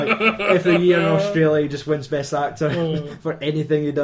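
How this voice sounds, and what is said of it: Usual voice. Nothing is said of it.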